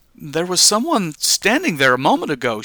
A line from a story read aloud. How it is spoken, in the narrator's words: exclaimed